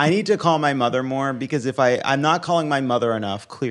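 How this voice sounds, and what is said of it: Usual voice. Nothing is said of it.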